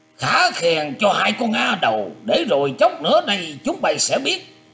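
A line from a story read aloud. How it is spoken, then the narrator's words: Wounded, angry loud shout. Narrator (Vietnamese): bị thương không phải nhẹ nên tức giận quát to lên rằng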